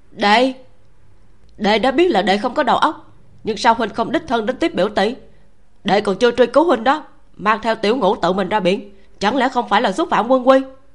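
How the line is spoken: Defensive shouting back. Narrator (Vietnamese): Ngô Việt căng da đầu quát lại

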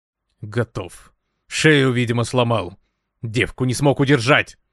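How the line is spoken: Growl. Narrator (Russian): рыкнул Светлов на Ивана Яковлевича

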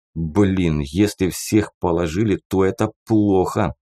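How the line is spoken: Hiss. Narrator (Russian): прошипел Погорелов

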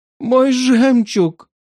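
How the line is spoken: Moaned. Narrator (Russian): простонала

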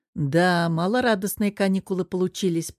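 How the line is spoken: Grumble. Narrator (Russian): проворчал Герман

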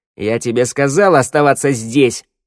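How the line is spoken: Barking. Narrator (Russian): рявкнула Шныряла

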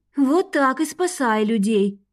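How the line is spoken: Sighing woman. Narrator (Russian): вздохнула подруга

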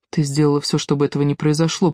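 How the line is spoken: Whisper. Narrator (Russian): прошептал Александр

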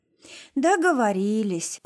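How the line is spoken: Theatrical sad sigh, girl. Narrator (Russian): театрально вздохнув и не скрывая грусти, произнесла девочка

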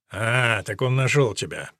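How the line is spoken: Grumbling. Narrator (Russian): проворчал граф

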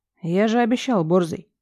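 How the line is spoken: Calm smirking snort. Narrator (Russian): Хмыкает совершенно спокойно

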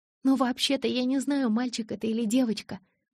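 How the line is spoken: Timid. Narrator (Russian): робко проговорила она

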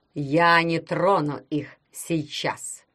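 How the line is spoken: Plain. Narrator (Russian): сказал он

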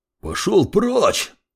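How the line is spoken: Young man's roar. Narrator (Russian): взревел парень

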